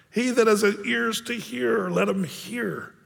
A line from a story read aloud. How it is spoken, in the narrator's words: Jesus cries out